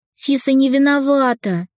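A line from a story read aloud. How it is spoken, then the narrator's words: Heated exclamation. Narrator (Russian): горячо воскликнула Ника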